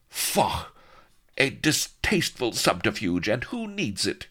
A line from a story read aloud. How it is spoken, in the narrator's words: cried haughty Vanity